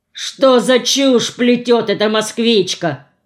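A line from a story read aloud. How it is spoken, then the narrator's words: Deep bass voice. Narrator (Russian): пробасил Шурыга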